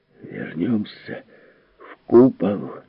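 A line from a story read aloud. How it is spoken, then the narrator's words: Moaning. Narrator (Russian): простонал Теремон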